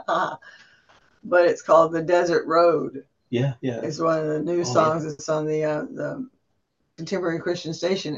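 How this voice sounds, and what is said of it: Raspy voice. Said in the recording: “Excuse me, my raspy voice, I won't sing.”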